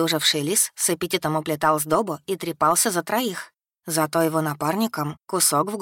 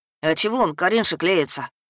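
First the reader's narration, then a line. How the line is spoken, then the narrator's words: Sulky snort. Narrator (Russian): Набычился Клавдий и фыркнул, раздувая широкие ноздри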